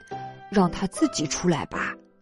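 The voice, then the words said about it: Whispering, quiet voice. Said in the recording (Chinese): “鳄鱼爸爸小声说”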